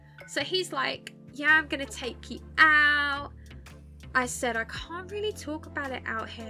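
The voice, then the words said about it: Essex English accent. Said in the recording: “I'm from Essex ... that's my accent”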